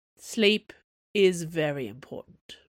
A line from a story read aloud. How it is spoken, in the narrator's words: he said solemnly